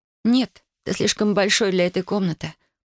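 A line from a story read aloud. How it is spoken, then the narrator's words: Whisper. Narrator (Russian): прошептала она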